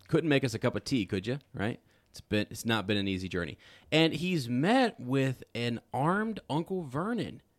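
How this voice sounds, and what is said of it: Poor put-on British accent. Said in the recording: “that's my terrible British accent.”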